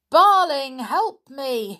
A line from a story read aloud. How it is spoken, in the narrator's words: he shouted